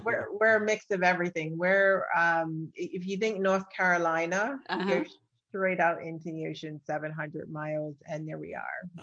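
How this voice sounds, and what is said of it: Bermudian accent, British-Irish mix. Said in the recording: “your accent. I think it's just beautiful... A little bit of British, a little bit of Ireland... Bermuda”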